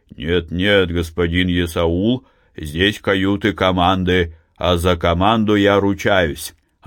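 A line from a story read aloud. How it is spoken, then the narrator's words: Booming voice. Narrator (Russian): капитан парохода, гудящим голосом говорил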